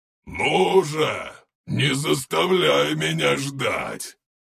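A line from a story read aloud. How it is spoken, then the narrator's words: Monster's growl. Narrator (Russian): прорычал монстр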